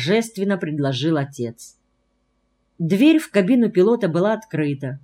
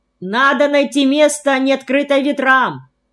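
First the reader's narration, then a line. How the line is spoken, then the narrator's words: Shouted. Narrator (Russian): прокричал Ермак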